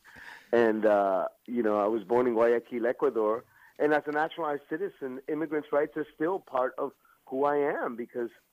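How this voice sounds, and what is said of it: New York accent, fast speech. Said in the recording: “I have that sort of New Yorker, ex-New Yorker accent. ... I'm a little jacked up on coffee already, so you know that I'm moving at a high speed.”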